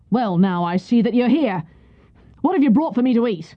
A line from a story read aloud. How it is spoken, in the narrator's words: one of the soldiers said roughly